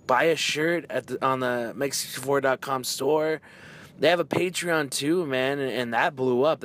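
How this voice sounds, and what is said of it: Hoarse, worn-out voice. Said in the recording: “That's why my voice is gone, man. It was just a bunch of, like, everyone was just having fun, clapping, yelling”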